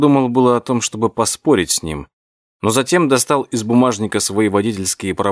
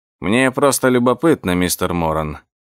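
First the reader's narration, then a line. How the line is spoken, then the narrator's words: Monotone. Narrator (Russian): монотонным голосом произнес он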